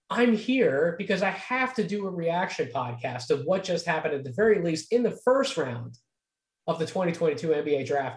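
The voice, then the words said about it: Slightly strained, fading voice. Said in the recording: “I'm losing my voice a little bit, was talking for quite a while over on the stream”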